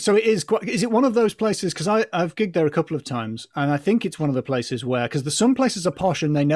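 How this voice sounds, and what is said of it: Usual voice. Nothing is said of it.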